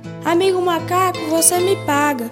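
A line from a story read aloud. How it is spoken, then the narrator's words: Roaring jaguar shouting. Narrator (Portuguese): a onça dá um rugido e grita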